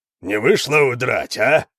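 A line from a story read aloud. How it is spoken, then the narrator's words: Barking shout. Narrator (Russian): рявкнул тот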